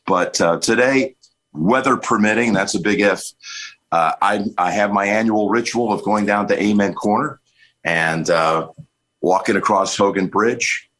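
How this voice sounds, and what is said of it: Strained, worn-out voice. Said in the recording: “You can probably still hear it in my voice. There's still another good night's rest to get my voice back after pushing it through 12 calls”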